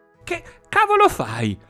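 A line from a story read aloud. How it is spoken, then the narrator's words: Shrieked. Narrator (Italian): strillò la Rossana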